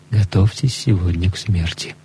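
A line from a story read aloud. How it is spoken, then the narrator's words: Whispered announcement. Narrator (Russian): приносящий пищу объявил шепотом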